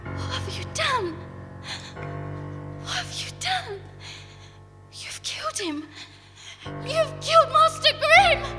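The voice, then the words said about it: Screaming. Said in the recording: “Please stop screaming.”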